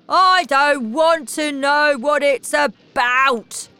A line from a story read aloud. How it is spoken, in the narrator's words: shouted